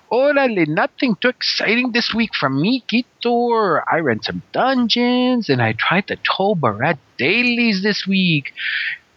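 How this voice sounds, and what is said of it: Exaggerated put-on Spanish-flavored accent. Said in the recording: “my husband's um, interesting accent”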